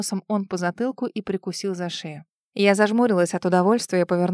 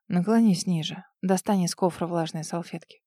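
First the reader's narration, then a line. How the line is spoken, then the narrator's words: Whisper. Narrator (Russian): прошептал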